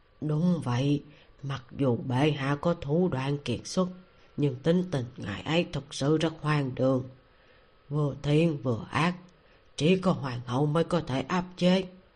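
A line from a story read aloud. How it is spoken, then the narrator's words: Low, sighing. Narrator (Vietnamese): Một người giáo giác thấp giọng thở dài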